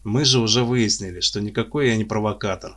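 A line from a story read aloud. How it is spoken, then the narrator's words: Sighing. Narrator (Russian): вздохнул Влад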